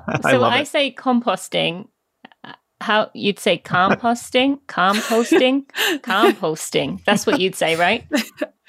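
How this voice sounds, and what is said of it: British accent. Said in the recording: “You said it in such a wonderful British accent. ... I would want someone with your accent reading it.”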